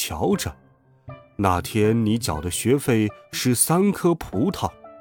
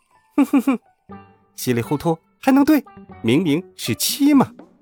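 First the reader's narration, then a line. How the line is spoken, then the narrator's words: Laughing fox. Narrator (Chinese): 小狐狸哈哈笑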